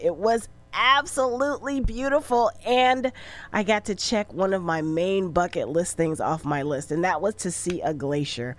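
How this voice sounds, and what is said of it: Slightly raspy voice. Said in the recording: “Voice is a little raspy today, coming off a 7-day cruise to Alaska.”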